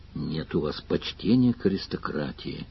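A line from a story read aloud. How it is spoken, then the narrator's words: Sad. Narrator (Russian): грустно сказал Сварог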